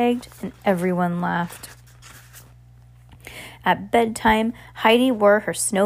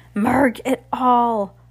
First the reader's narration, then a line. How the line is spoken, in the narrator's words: Heidi grumbled